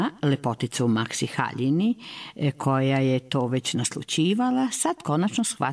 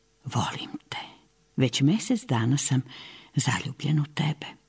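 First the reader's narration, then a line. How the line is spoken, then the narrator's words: Tender, loving. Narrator (Serbian): Nežno zagledan u prelepu žućkasto zelenu princezu Boraniju reče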